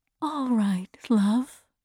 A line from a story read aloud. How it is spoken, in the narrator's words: said softly